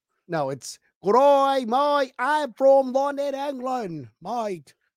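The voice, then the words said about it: Poor put-on London accent. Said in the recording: “That's a terrible London accent... That's Australian.”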